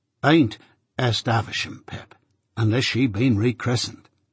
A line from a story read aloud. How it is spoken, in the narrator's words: said Joe gravely